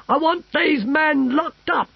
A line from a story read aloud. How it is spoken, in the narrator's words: shouted the Emperor